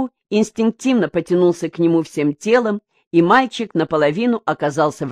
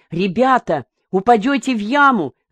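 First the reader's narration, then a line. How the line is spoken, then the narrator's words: Shouting. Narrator (Russian): закричал Сергей Миронович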